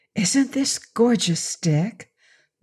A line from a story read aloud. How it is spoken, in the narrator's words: Dorothy whispered